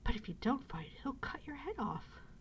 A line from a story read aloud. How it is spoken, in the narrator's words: gasped the boy, miserable at the prospect of losing both his fight and his friend